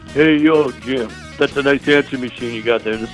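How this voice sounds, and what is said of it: Sylvester Stallone impression. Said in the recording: “an awfully good Sylvester Stallone imitation”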